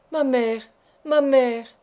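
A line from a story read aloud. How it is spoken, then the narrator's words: Crying out. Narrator (French): s'écriait-il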